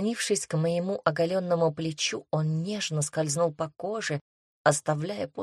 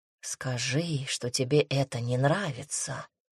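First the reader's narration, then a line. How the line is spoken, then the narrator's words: Whisper close to ear. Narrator (Russian): шепнул демон, касаясь уха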